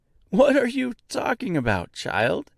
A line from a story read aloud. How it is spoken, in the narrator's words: asked M with a laugh